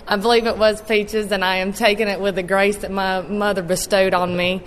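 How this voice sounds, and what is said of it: Southeastern US accent. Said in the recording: “we are there in the Southeast, and my accent may be strange to some of those that are here in Washington”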